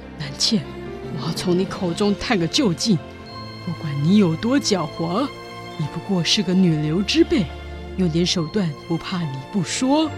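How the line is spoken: Muttering to herself. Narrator (Chinese): 费琴边走边喃喃自语

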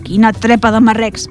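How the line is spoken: Grumbling. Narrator (Catalan): va rondinar

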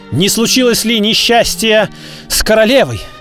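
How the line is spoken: Anxious loving exclamation. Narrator (Russian): Воскликнул герцог, и в этом возгласе сказались вся его забота и любовь

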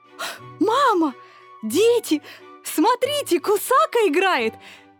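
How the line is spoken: Breathless laughing shout. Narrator (Russian): Кричала Лёля и, задыхаясь от смеха, просила

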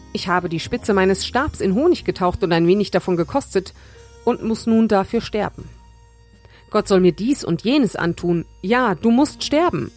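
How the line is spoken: Plain. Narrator (German): sagte Saul

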